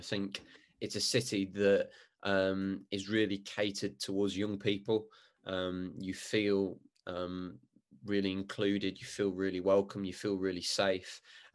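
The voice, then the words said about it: Birmingham English accent. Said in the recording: “as people can probably tell from my appalling accent, I'm coming from a big city in Birmingham”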